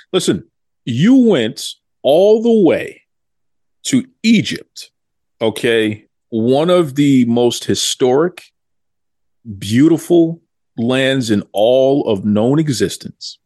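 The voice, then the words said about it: Boston accent. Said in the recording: “You can hear in the accent. I'm Boston.”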